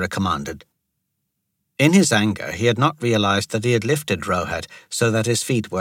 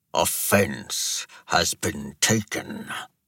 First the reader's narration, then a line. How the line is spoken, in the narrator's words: Ashok growled